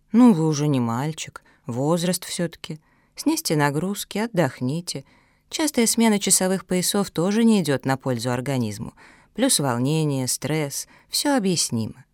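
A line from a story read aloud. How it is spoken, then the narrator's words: Calm doctor's reply. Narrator (Russian): Врач спокойно ответил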